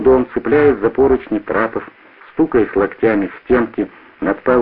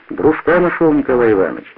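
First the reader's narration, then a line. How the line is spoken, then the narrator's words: Joyful. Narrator (Russian): радостно сказал Стародонский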